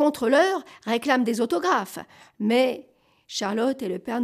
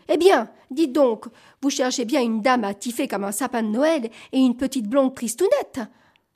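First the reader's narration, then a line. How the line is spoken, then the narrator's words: Two voices exclaiming together. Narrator (French): Charlotte et le Père Noël s'écrient d'une seule voix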